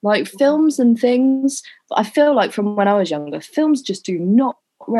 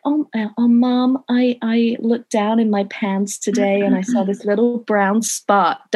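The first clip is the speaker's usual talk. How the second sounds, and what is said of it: Bad put-on American accent. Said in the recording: “Don't cringe at my American accent. I know it's shit.”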